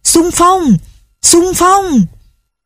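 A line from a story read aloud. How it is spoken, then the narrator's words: Strange mixed-tongue yelling crowd. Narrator (Vietnamese): tiếng gào thét kỳ lạ, lẫn lộn đủ mọi thứ ngôn ngữ, thổ âm, giọng điệu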